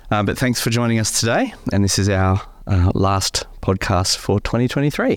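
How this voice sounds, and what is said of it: Croaky, hoarse voice. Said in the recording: “I've got a bit of a croaky voice, but I'm getting through a slight summer cold ... I've got my radio voice on today”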